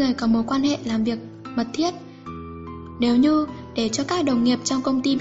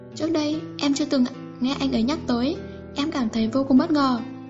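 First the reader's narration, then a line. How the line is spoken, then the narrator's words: Bitter smiling. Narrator (Vietnamese): Viên Huệ Chi mỉm cười đầy khổ sở, nói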